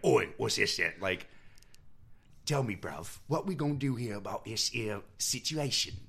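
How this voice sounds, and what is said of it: Gravelly put-on British Cockney accent. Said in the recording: “he's doing a British Cockney, like, gravelly Cockney ... I don't know if that accent I just did is as good as he's doing or way worse”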